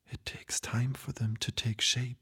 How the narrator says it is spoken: whispered

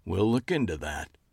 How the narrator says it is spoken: he said dryly

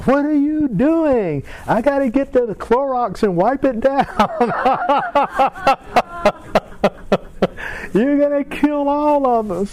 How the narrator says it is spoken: My wife started screaming

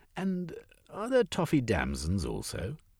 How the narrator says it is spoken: Nina laughed

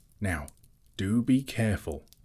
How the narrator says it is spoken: whispered the Hobbit

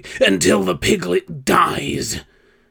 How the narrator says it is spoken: Face contorted in sudden rage, Reagan jerked up from the pillow as she shouted in fury

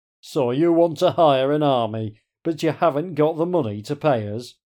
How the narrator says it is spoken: Strawn booms

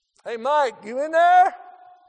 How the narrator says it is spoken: they would holler in

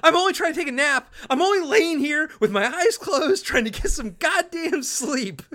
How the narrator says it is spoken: Ray freaks out, and starts yelling

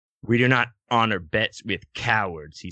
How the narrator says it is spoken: he spat out

